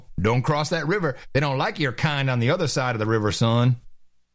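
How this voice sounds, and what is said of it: Put-on southern Texas accent. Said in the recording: “southern accent ... You're getting a slight Texas accent. Sounds good.”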